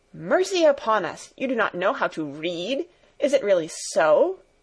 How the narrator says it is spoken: exclaimed Fräulein Rottenmeier, greatly horrified

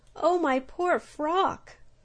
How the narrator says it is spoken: cried the humblebee, gazing sadly

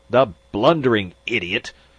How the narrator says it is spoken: Magnan spluttered

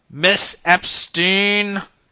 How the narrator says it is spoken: he bellowed

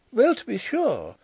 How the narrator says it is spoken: exclaimed Miss Chubb

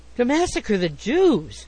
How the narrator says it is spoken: said Huddle indignantly

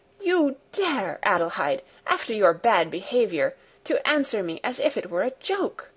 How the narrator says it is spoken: With raised voice she exclaimed

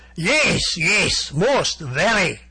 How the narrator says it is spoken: shouted Vladimir Brusiloff enthusiastically

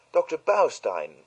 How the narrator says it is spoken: exclaimed Cynthia

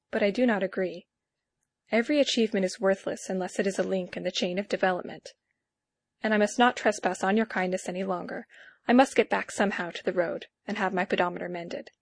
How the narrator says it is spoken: I said quietly

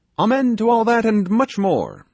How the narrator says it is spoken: shouted Toby

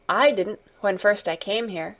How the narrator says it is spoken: said Mary

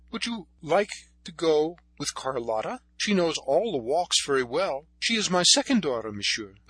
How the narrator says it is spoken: she exclaimed

